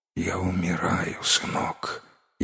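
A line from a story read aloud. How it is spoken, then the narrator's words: Faint dying whisper. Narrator (Russian): еле шевеля губами прошептал Чу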